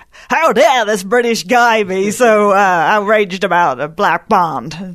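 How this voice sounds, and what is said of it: Bad put-on American accent. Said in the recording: “That's my worst American accent.”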